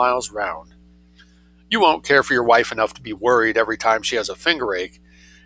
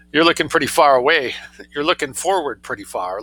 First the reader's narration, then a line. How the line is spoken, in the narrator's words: laughed Ugel